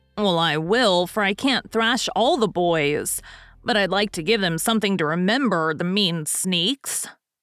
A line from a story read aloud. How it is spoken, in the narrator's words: growled Stuff, still in a fume